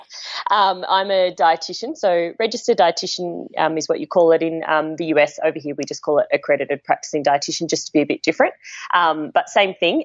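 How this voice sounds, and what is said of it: Australian accent. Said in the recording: “as your listeners would have picked up by my accent already, I'm based in Australia.”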